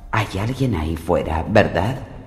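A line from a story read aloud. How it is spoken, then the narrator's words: Whispering. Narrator (Spanish): susurró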